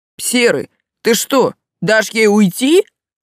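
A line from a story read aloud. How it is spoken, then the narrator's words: Yelling. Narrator (Russian): завопил один из них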